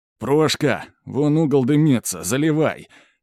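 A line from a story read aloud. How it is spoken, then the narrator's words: Hoarse yell over crowd noise. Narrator (Russian): орёт хриплым голосом Иван, перекрикивая общий гомон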